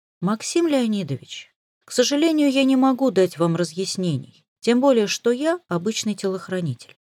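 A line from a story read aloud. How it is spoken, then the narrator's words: Calmly spoken. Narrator (Russian): спокойно произнесла я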